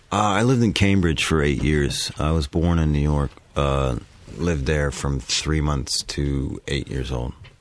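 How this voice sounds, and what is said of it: American accent. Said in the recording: “I can't hear any trace of English at all... just American all the way up.”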